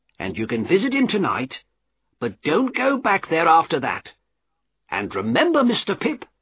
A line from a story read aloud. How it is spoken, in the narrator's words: added firmly